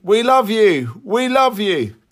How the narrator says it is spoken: One man shouted above the tumult

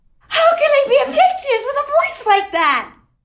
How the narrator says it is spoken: wailed

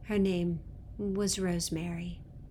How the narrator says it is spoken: the giver said

